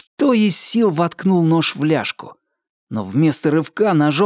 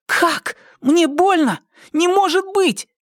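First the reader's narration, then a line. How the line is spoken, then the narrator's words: Crying out again. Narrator (Russian): Не веря себе, вскрикнул опять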